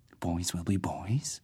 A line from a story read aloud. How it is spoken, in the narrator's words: Leon was saying, his voice a whisper